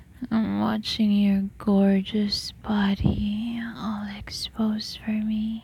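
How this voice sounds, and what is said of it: Soft intimate whisper. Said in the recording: “whispering my instructions on your ear”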